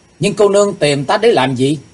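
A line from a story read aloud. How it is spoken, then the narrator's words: Loud. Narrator (Vietnamese): chàng lớn tiếng nói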